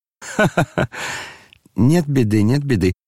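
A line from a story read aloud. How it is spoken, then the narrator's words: Gleeful laughing chime-in. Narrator (Russian): подхватил Фердыщенко, обрадовавшись, что начали смеяться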